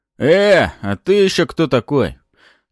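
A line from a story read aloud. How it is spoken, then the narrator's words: Rude question. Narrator (Russian): Грубо спросил меня тот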